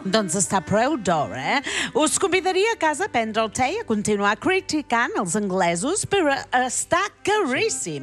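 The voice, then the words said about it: Speaks with a put-on accent. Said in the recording (Catalan): “Ha de ser molt cansat parlar amb aquest accent tota l'estona, no?”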